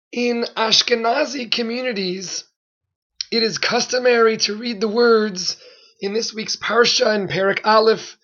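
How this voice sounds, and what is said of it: Hoarse voice. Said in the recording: “Please excuse my hoarse voice.”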